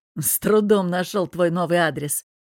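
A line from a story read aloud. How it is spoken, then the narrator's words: Snort, then inquiry. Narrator (Russian): Хмыкнув, поинтересовался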